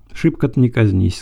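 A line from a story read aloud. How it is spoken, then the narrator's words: Plain. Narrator (Russian): сказала она ему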